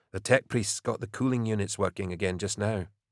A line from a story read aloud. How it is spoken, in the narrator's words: Milo muttered by way of explanation